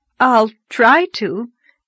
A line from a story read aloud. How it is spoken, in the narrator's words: gasped Anne, choking back a wild desire to laugh